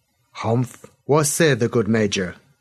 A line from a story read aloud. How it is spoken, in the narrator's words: The hussar captain spoke North Sea Pigeon, but with a clear accent